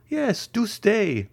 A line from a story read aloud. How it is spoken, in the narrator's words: added La Carconte in a tremulous voice